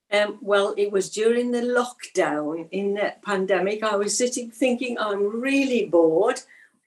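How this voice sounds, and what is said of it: Middle English regional accent. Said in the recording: “you can probably tell from the accent, in the middle of England”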